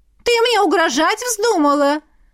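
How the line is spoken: Shrieking woman. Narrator (Russian): Взвизгнула блондинка

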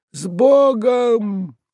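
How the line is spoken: Shouting. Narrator (Russian): кричал Уклейкин

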